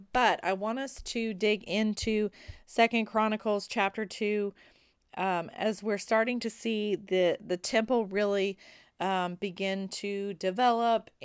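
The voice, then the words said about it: Squeaky, recovering voice. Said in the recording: “my voice is slowly starting to come back ... you won't have to listen to the squeaking anymore”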